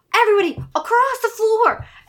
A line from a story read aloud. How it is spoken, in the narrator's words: he yells